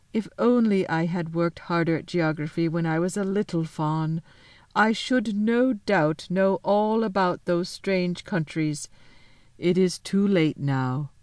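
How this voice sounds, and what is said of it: Rather melancholy voice. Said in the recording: “in a rather melancholy voice.”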